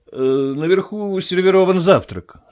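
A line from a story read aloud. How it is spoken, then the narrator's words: Forced casual tone. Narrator (Russian): сказал Кэмп, стараясь говорить непринужденным тоном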